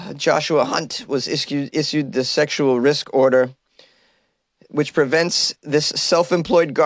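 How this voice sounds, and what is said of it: Usual voice. Nothing is said of it.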